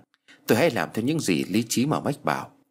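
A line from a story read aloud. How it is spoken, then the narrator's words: Soft murmur. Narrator (Vietnamese): Chị thủ thỉ rằng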